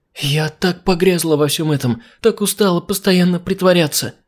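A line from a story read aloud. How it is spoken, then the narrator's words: Whimpering. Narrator (Russian): заскулила она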